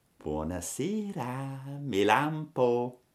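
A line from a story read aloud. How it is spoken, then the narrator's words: Whispered. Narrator (Italian): Una di queste faine disse sottovoce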